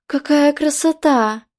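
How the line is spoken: Delighted exclamation. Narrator (Russian): восхищенно воскликнула Мэридит

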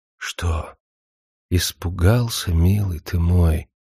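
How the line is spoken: Whispering into ear. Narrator (Russian): прошептала она ему в самое ухо

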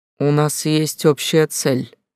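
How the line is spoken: Irritated, through gritted teeth. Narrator (Russian): раздраженно процедил Хаундайр, впервые за все время не собираясь уступать

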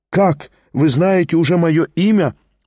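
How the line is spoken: Happy, smiling. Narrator (Russian): улыбнулся радостно

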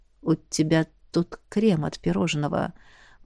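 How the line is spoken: Mutter. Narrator (Russian): пробормотал Эш

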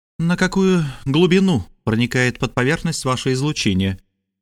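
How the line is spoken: Grim question over intercom. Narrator (Russian): мрачно спросила она по внутрикорабельному коммуникатору

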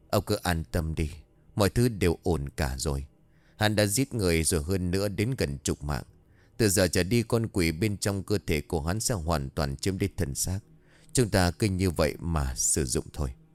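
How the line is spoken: Old man's smiling reply. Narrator (Vietnamese): Lão già mỉm cười trả lời

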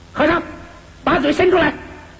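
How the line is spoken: Small demon shouting. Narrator (Chinese): 一个小妖叫道

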